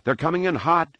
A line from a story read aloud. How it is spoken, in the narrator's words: Anakin cried from the pod above